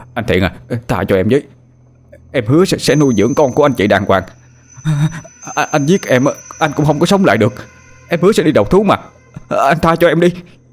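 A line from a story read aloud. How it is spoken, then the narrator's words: Trembling pleading. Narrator (Vietnamese): Hắn run rẩy nhưng vẫn đủ lý trí để nói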